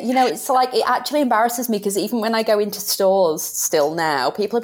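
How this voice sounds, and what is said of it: British accent. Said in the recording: “I love your accent ... I love, love, love your accent”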